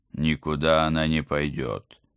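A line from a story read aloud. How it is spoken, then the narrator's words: Husband growling. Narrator (Russian): зарычал мой муж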